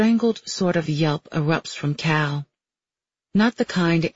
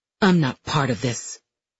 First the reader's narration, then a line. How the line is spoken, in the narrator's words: he snarls